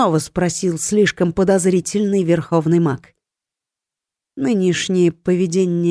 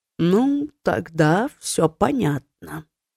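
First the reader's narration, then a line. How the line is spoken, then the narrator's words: Drawled. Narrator (Russian): протянул Кертон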